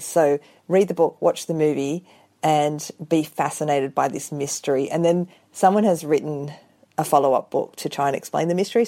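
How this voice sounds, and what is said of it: Australian accent. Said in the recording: “I love your accent too. That makes an Australian novel even better.”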